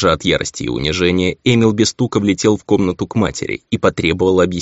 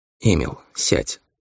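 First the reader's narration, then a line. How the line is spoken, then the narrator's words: Calm. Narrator (Russian): сказала она спокойно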